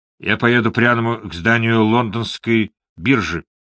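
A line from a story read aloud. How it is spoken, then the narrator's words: Calm, confident. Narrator (Russian): спокойно и уверенно сказал Морган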